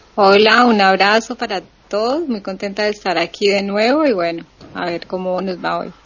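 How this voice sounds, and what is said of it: Colombian Cali accent. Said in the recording (Spanish): “el acento no es de catalana, ¿verdad? ... El acento de Cali”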